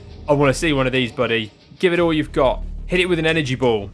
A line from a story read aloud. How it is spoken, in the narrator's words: Felix shouts out to Pratchett